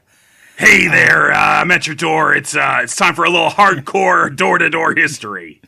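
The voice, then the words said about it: Rough throaty imitation of another person. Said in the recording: “talk like kind of like a weird Nixon, like Nixon's throat like that? ... That's not the worst impression of Dan Carlin anyone's ever done. ... he's got a kind of a engagingly rough kind of voice”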